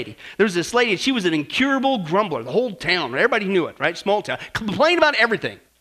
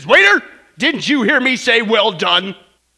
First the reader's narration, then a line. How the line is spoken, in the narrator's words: he barks back at the waiter and he says